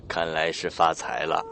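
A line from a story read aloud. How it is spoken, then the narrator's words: Smiling. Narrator (Chinese): 来的人笑着说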